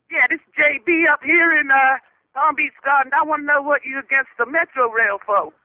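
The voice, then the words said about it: Phony put-on accent. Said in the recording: “How long have you been working on that phony accent ... keep working on it a little bit better”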